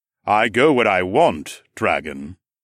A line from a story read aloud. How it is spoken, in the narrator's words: the god replied in a low voice